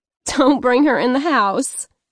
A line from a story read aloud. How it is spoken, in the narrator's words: she chuckled, but she wasn't kidding